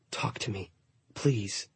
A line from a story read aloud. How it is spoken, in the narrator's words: I whispered